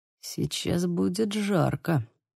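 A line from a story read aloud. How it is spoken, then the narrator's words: Muttering. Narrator (Russian): пробормотал Лука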